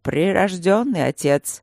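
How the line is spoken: Icy tone. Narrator (Russian): ледяным тоном проговорил Макс

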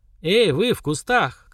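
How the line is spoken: Ringing shout. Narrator (Russian): крикнула звонким голосом

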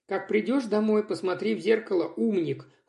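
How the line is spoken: Cold. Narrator (Russian): холодно сказал Светлов

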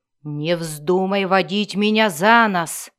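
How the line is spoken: Growled. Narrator (Russian): прорычал он

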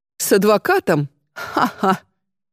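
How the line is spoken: Forced, fake laugh. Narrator (Russian): Матвей деланно, ненатурально рассмеялся

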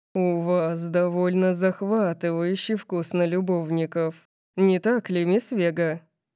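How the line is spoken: Seductive purr. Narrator (Russian): Он соблазнительно замурлыкал

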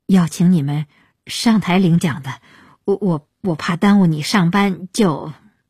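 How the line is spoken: Stammering, confused. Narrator (Chinese): 鹏飞没料到，不知道原因在哪儿，结结巴巴地说

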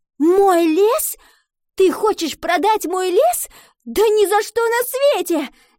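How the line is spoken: Female shout. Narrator (Russian): закричала она

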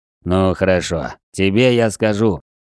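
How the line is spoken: Deep voice, hushed. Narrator (Russian): пробасил Грегори, стараясь, чтобы голос звучал как можно тише

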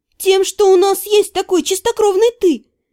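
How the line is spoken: Gleeful grin. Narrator (Russian): радостно осклабилась я

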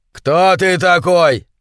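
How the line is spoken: Shouting. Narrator (Russian): закричал он

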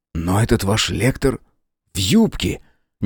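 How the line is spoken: Puzzled whisper. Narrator (Russian): недоуменно прошептал Мэлори

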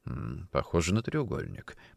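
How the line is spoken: Muttering. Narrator (Russian): пробормотал он

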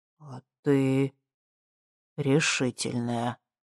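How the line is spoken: Breathy exhale. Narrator (Russian): выдохнул он

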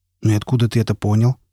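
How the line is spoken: Plain. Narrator (Russian): спросил он

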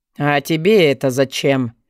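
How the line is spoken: Growl. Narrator (Russian): рыкнул Ладон

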